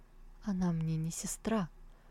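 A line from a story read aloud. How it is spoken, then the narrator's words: Very quiet objection. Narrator (Russian): очень тихо возразил Сяошень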